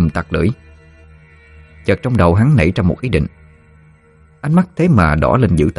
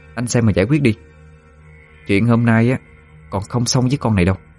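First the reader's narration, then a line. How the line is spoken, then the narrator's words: Harsh, gritted voice. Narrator (Vietnamese): Trang gằn giọng nói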